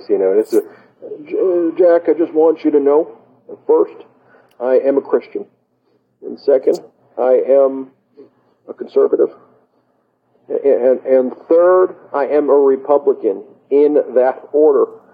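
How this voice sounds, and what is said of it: Imitates another person's voice. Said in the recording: “my Mike Pence impression”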